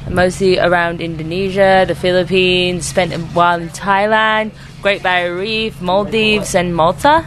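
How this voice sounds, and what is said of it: Slight London English accent. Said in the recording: “London ... She has a slight accent”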